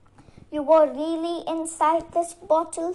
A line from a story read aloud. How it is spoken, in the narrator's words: asked